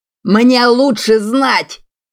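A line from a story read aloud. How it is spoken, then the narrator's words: Shrill shouting. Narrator (Russian): Купер уже пронзительно кричал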